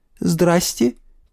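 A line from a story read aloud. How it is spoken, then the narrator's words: Timid girl's squeak. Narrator (Russian): пискнула девица и робко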